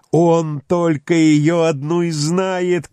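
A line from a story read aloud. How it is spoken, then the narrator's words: Shouted while running. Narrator (Russian): крикнул на бегу Мервин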